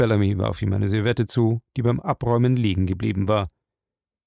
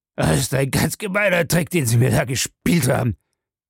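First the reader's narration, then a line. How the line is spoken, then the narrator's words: Groaned. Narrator (German): stöhnte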